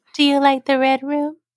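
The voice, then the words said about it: Childlike voice. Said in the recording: “in a child voice”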